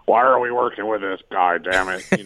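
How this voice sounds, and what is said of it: Good Vince McMahon impression. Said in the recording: “That's a very good Vince impression. Wow, that's pretty good.”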